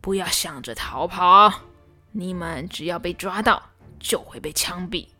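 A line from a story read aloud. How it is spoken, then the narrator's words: Cold. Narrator (Chinese): 老兵冷冷地说道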